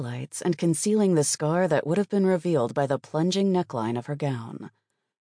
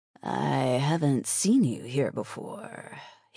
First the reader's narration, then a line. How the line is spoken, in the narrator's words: he drawled